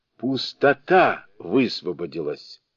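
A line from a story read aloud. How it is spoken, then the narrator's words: Involuntary exclamation. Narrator (Russian): Великий мудрец не удержался и воскликнул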